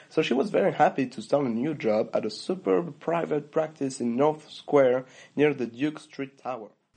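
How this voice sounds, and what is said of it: French accent. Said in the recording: “challenged you to say where on the planet the speaker grew up... If you guessed France”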